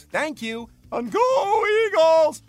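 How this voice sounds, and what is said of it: Imitates another person's voice. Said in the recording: “Your impression”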